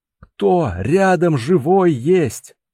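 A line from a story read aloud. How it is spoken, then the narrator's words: Strained shout. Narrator (Russian): натужно выкрикнул он, пытаясь подняться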